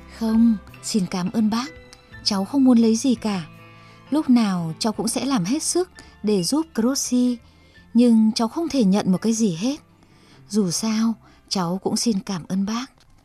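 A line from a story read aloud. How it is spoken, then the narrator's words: Smiling reply. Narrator (Vietnamese): De Rossi mỉm cười và trả lời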